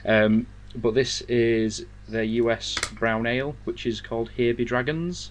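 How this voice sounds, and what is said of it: Yorkshire English accent. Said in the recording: “given as you'll tell the accent, I am I am Yorkshire born and raised”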